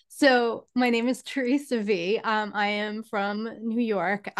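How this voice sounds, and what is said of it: New York accent. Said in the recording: “Obviously from New York, but ... You couldn't tell by my voice.”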